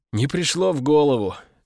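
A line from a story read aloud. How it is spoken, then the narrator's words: Sigh. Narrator (Russian): вздохнул Овод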